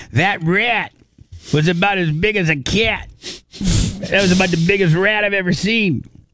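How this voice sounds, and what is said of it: New Yorker accent impression. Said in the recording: “my very good New Yorker accent ... my Greg D impersonation. I'm not very good at it.”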